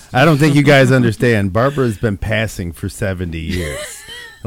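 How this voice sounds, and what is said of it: Bad Barbara Walters impression. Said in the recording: “worst Barbara Walters impression ever”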